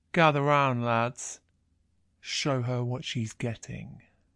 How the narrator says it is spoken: he says, his voice catching as he tries to push words out through his lust

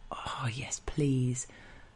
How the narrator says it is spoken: breathe faster and murmur

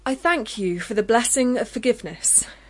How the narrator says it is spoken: said loudly

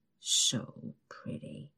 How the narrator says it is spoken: he mumbles

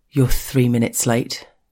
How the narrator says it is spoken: he tells me gruffly

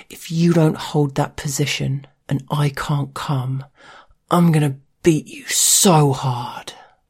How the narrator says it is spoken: through breathless gasps he grunted

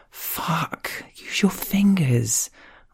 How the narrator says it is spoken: hiss, mindful of the family unit sleeping unknowingly a few locked doors away

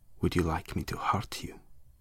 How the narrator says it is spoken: he whispered

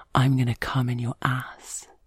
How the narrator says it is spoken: whispers in my ear

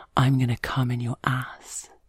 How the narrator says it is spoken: he whispers in my ear

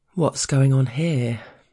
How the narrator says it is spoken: the boss drawls casually

